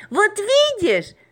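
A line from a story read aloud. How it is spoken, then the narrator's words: Screaming. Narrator (Russian): завопила Маша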